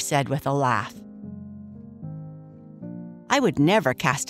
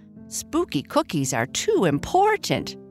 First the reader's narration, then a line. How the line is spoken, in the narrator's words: Bernice said, laughing